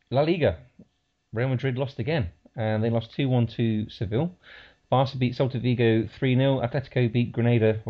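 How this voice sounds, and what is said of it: Leicester English accent. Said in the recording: “my Leicester accent”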